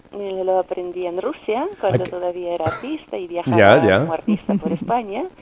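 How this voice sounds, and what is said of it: Soft, lilting foreign accent in Spanish. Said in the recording (Spanish): “Con ese acento tan suave y tan cadencioso”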